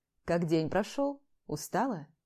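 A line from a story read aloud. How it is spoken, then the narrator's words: Slightly husky voice. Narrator (Russian): Его голос с легкой хрипотцой будоражит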